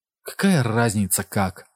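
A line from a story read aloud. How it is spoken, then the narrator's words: Slightly trembling voice. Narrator (Russian): сказала, наконец, Памела слегка дрогнувшим голосом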